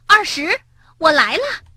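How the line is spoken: Loud shout. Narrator (Chinese): 他大声喊

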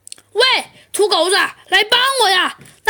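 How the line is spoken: Shouting. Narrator (Chinese): 阿东却又喊了起来

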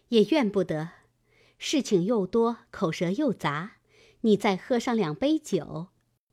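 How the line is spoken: Laughing. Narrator (Chinese): 鸳鸯笑道

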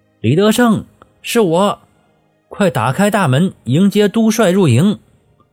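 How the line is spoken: Loud shout. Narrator (Chinese): 高奇勋 抬头大声喊道

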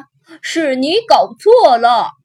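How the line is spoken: Roaring. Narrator (Chinese): 戴德大吼着

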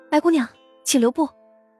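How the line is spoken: Hurried call. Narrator (Chinese): 杜潇潇 忙追上去喊了声

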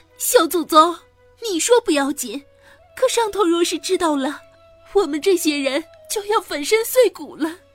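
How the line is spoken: Crying. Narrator (Chinese): 袭人哭着说

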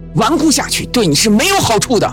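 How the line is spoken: Angry shout. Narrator (Chinese): 周伟怒喝道

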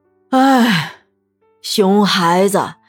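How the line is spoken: Long sigh. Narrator (Chinese): 李博阳长叹一声

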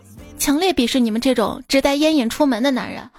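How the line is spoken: Angry woman. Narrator (Chinese): 这美女怒道

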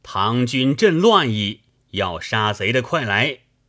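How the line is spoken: Plain. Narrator (Chinese): 说罢

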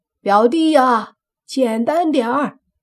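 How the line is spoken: Loud shout. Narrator (Chinese): 大寇在堂屋里大声喊

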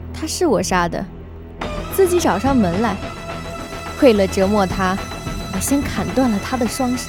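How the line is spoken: Calm, flat. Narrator (Chinese): 莫小贝终于停止了笑，他平静地说

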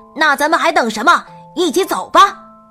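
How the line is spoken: Loud. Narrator (Chinese): 他大声的回答道

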